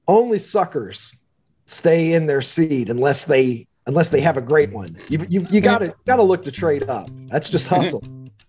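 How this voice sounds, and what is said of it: Mild Kentucky drawl. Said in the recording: “I noticed something of an accent. ... I am a Kentuckian. ... the drawl is going to be with me forever ... this is probably as much accent as I'm going to lose.”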